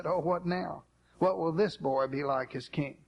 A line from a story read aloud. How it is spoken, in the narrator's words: a nervous remnant of people must have sighed and said